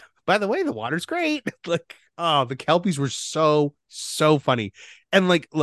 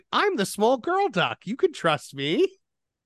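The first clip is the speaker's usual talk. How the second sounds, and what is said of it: Imitates a cartoon duck girl's voice. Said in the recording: “the one ... is doing the Webby's voice ... doing the voice.”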